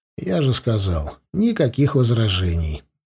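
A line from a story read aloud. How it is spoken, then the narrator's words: Indifferent tone. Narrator (Russian): безразличным тоном ответил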